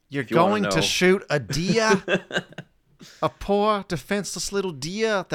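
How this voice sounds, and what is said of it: Attempted New York accent. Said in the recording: “I cannot do a New York accent”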